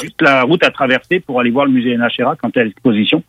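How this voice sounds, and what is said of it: Thick Québécois French accent. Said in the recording (French): “un petit euh, journaliste québécois euh, francophone avec un accent à couper au couteau”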